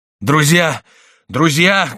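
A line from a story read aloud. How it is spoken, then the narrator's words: Shouting. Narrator (Russian): кричал Марвель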